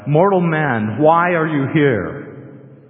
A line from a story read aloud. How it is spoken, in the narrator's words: the voice boomed out